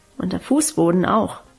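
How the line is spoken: Murmur. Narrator (German): murmelte sie

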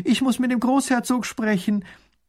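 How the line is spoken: Called out. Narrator (German): ruft sie

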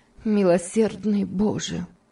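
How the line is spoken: Heavy-sighing female exclamation. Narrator (Russian): тяжело вздохнув, воскликнула

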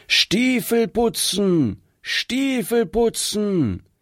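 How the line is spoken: Loud calling. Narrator (German): hörte man ihn laut rufen

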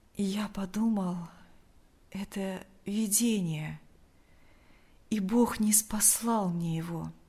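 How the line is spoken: Weak voice. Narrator (Russian): ответил Лукьян слабым голосом

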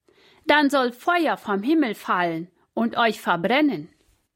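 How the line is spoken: Called out to someone. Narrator (German): rief er den Hauptmann zu

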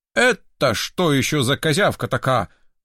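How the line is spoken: Menacing question. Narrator (Russian): грозно вопросил он

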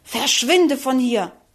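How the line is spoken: Contemptuous angry hissing. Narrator (German): Verächtlich fauchte wütend

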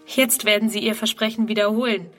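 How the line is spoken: Plain. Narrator (German): sagt sie

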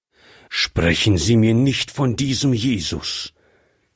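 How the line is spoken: Old man's angry outburst. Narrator (German): entfuhr es wütend dem alten Mann

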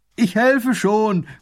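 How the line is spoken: Calling from afar. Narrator (German): ruft er von Weitem

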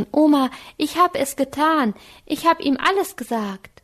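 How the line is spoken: Called out. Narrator (German): rief Anke

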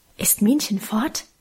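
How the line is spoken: Mysterious murmur. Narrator (German): raunte sie geheimnisvoll

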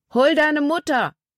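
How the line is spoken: Calling out. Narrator (German): Paul rief ihr zu

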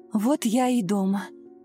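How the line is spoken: Relieved exhale. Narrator (Russian): с облегчением выдохнула Ирина

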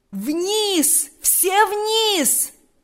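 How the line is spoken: Loud booming shout. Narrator (Russian): закричал генерал громким, язычным голосом, перекрывшим все звуки

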